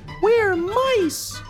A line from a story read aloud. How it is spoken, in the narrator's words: they squeaked